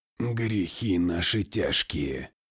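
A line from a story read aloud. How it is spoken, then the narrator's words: Grumbling merchant. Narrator (Russian): проворчал купец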